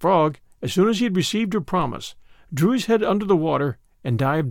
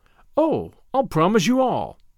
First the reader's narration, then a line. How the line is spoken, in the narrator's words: said she